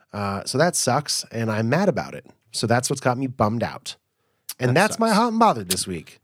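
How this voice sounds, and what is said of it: Congested, nasal voice. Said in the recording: “I don't know if anybody can hear it in my voice, but I'm very sort of up in my nose area congested. I still have a little bit of a cough.”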